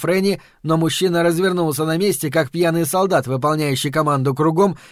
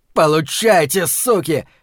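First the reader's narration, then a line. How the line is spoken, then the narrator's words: Shouting. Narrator (Russian): кричал этот джентльмен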